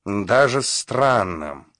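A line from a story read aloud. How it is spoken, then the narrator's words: Grumbled through fence. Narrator (Russian): проворчал сквозь забор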